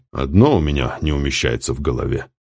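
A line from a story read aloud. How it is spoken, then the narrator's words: Grumbled. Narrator (Russian): проворчал полковник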